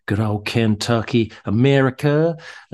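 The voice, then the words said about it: Put-on American accent. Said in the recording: “that's my American accent. ... Very good.”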